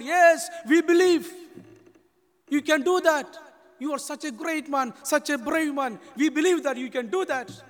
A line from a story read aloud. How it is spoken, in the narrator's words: The people shouted